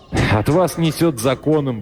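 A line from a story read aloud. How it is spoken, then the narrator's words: Curt remark, then laughing. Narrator (Russian): бросил он и засмеялся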